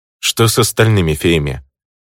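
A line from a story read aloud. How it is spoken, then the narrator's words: Asked. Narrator (Russian): спросил я у гоблина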